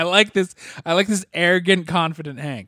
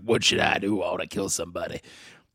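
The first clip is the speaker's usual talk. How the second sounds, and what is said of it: Imitates a movie character's voice. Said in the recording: “your Wolverine impression is slinging Blade”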